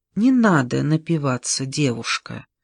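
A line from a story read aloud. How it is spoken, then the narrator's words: Soft. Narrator (Russian): мягко произнес он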